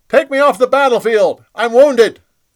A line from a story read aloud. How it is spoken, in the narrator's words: He yelled